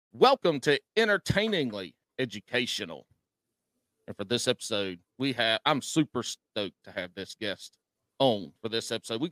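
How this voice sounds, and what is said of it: Southern drawl. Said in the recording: “a lot of vowels for a country person to say ... with a Southern drawl”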